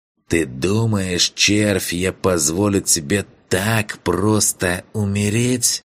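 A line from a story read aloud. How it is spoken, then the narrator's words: Hissing. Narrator (Russian): прошипел Гларн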